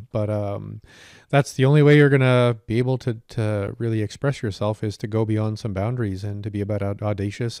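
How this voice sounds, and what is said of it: Slightly hoarse voice. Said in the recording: “my voice is a bit hoarse ... I've been kind of shredding my larynx trying to learn this song”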